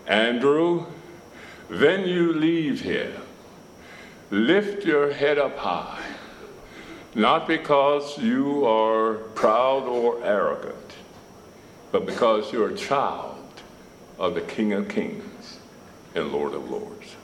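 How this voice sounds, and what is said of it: Thick Russian accent. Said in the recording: “in that thick Russian accent”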